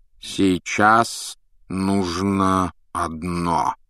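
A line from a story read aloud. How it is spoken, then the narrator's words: Slow, deliberate. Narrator (Russian): медленно проговорил Дамблдор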